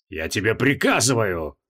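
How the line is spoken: Growl. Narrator (Russian): прорычал маг

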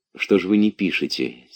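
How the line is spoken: Quiet question. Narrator (Russian): тихо спросил Алексеев

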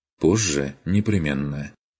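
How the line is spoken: Calm. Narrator (Russian): ответил Курт спокойно

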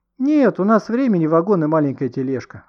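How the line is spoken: Joyful exclamation. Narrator (Russian): радостно воскликнул Никита

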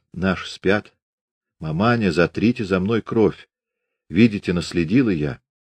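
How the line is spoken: Hoarse whisper. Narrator (Russian): Наталья хрипло прошептала

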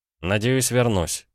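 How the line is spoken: Grumbling. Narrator (Russian): проворчал Кравцов

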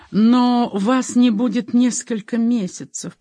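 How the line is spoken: Moan. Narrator (Russian): простонала она

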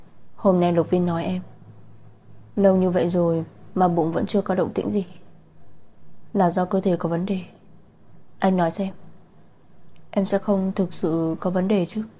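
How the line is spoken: Vexed sigh. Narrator (Vietnamese): Lạc Thiên Ngưng có chút ảo não, thở dài nói

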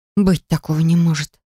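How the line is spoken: Breathless exhale. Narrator (Russian): выдохнула

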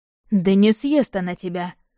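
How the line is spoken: Amused snort. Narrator (Russian): хмыкнул Яблонев

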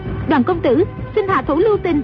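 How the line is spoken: Urgent plea. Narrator (Vietnamese): Dương Ngữ Yên vội la lên

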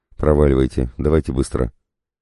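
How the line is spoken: Angry after shaky sigh. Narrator (Russian): Матакуша судорожно вздохнул, а потом сердито спросил

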